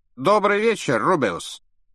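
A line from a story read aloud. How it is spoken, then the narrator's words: Loud. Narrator (Russian): громко произнес Редл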